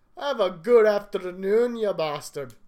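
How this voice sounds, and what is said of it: Bad put-on Scottish accent. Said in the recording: “My accent's drifting to vaguely Indian, I think. ... a bad Scottish accent”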